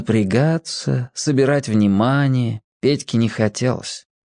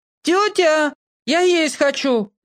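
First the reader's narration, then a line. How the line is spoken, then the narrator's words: Shouted. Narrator (Russian): закричал он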